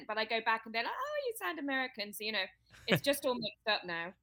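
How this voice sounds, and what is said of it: Hybrid British-American English accent. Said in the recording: “You have this accent ... my accent is hybrid now ... I'm English ... this is considered a hybrid British accent”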